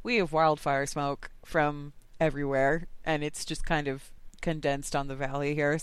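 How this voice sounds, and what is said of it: Strained voice cutting in and out. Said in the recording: “my voice is a little bit in and out today”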